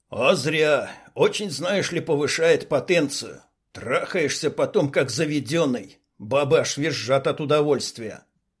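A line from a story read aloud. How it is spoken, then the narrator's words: Chuckling. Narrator (Russian): хохотнул Лоскут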